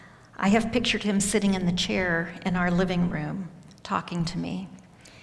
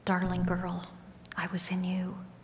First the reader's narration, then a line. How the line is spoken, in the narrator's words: Ever so gently, I heard his voice